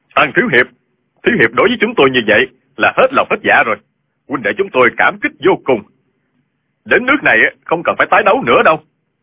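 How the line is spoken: Loud excited crowd. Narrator (Vietnamese): Người trong Minh giáo và Thiên Ương giáo xôn xao lớn tiếng kêu lên

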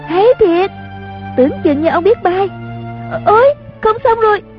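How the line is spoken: Excited cheering. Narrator (Vietnamese): Chung Linh reo lên

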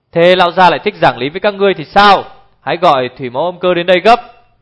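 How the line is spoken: Angry loud shout. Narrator (Vietnamese): Đái Độc Hành đã nổi giận hét to

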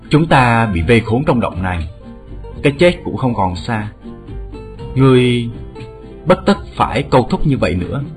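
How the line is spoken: Sighing voice. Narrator (Vietnamese): nghe một tiếng thở dài nói

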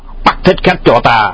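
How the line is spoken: Loud shout. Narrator (Vietnamese): Hoàng Nhan Hữu quát to

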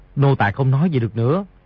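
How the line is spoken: Lowered voice. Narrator (Vietnamese): Di Tiểu Bảo hạ giọng nói

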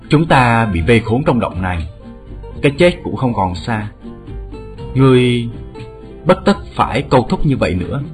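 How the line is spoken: Sighing. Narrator (Vietnamese): một tiếng thở dài nói

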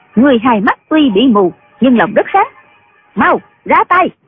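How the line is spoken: Smiling. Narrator (Vietnamese): Huy Nguyệt Sứ mỉm cười nói

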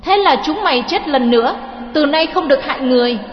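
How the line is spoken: Angry shout. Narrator (Vietnamese): Lê Chân quát

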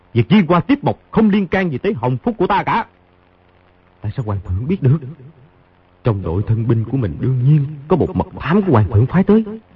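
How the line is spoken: Cold scornful speech. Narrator (Vietnamese): Khang Hy hừ một tiếng, trừng mắt nhìn y, lạnh lùng nói

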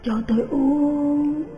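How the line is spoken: Mournful, pleading moan. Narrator (Vietnamese): Quasimodo lại rên lên, giọng ai oán, van xin

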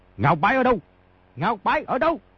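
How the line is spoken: Loud shouting men. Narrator (Vietnamese): Bốn hán tử áo xanh ... quát lớn

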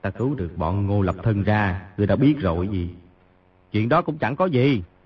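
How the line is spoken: Soft laugh, inner thought. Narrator (Vietnamese): Di Tiểu Bảo cười khẽ một tiếng, nghĩ thầm

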